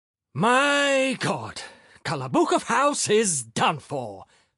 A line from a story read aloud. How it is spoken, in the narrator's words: Filip Filipovich exclaimed in despair